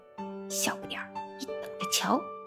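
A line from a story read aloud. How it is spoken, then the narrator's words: Low threatening whisper. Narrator (Chinese): 讨厌鬼卢卡贴在吉姆的耳边，低声吓唬他说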